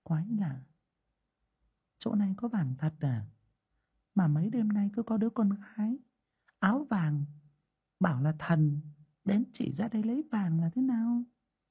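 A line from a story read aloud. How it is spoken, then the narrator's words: Woman muttering. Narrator (Vietnamese): người đàn bà lẩm bẩm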